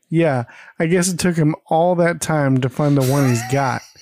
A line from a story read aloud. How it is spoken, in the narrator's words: Jan chuckles, and says